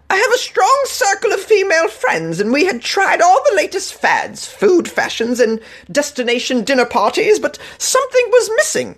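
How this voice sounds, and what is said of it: Put-on British accent. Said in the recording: “let me do this in a British accent.”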